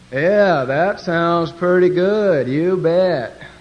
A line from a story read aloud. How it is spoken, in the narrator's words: They have that slow Western drawl, and they'll say